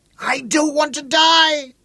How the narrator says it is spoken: screamed the blind boy

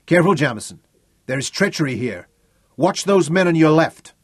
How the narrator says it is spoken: John shouted over him

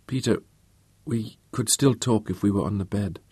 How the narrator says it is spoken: she murmured

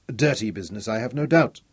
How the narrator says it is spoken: snapped

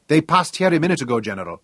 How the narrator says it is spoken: he blurted

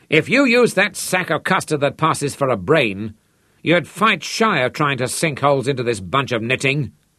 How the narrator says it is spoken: Popeye yelled into the mouthpiece

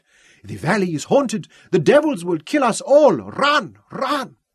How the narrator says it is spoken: cried

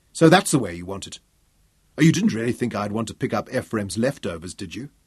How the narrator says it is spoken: Daniel tried to keep his tone reasonable

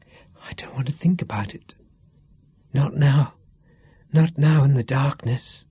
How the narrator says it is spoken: she whispered

